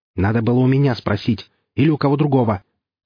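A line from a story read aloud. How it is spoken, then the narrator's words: Angry curt retort. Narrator (Russian): зло отрезал бывший комендант бывшего лагеря новичков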